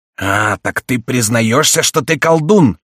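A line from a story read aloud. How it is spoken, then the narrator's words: Furious roar. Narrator (Russian): проревел с бешенством Гриф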